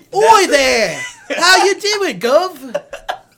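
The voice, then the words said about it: Exaggerated stereotypical British accent. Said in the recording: “an English or British accent ... the most stereotypical words and mixed it with, like, a shitty accent”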